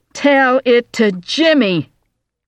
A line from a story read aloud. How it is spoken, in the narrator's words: she shouted into Audrey's stunned face